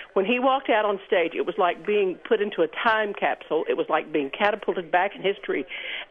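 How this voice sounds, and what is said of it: Southern American accent. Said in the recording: “your accent is making me think you came from Tennessee ... born in Mississippi but raised in North Carolina”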